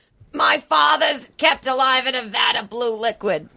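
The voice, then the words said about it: Imitates another person's voice. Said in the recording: “That's a great impression. That's what he would say.”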